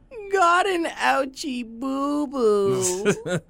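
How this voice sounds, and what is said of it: Convincing baby voice. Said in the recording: “You have a surprisingly good baby voice.”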